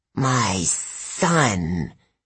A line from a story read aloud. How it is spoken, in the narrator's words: hissed in a dry voice